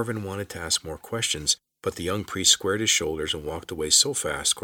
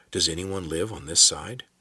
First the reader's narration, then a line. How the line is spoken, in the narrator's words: Corvin whispered